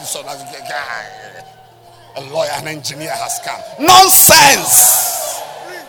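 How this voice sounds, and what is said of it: Shouting loudly. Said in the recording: “Sorry for shouting... I'm sorry for shouting.”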